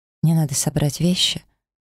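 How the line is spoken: Calm clarification. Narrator (Russian): спокойно уточнила

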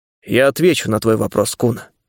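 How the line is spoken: Cold. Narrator (Russian): холодно произнес я

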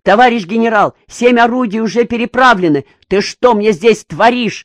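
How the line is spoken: Furious shout. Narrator (Russian): Разъяренный, закричал на него Квашин

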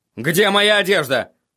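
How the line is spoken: Barking. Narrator (Russian): рявкнул он Шае

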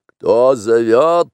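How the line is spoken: Barking. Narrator (Russian): рявкнул Шер-Хан

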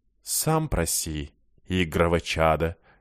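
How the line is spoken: Unctuous, barely restrained. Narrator (Russian): елейным голосом отозвался Ер, еле сдерживаясь

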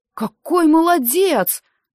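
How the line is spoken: Fervent exclamation. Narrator (Russian): с жаром воскликнул Дэн

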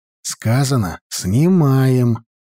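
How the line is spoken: Grumbling. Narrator (Russian): проворчал Серега

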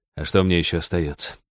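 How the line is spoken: Sighing. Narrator (Russian): вздохнул Роджер

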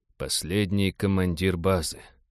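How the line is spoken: Respectful whisper. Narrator (Russian): уважительно прошептал Роджер

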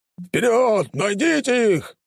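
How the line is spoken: Shouting. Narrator (Russian): прокричал кто-то из их отряда

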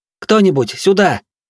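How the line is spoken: Shout. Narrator (Russian): крикнула она

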